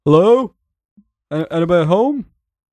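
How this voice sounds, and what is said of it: Loud, raised calling voice. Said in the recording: “I'm just going to raise my voice.”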